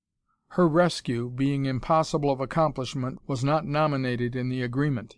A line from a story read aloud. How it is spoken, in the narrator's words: he said coldly